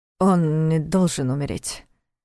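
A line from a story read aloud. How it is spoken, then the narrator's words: Uncertain objection. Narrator (Russian): неуверенно возразил Войтых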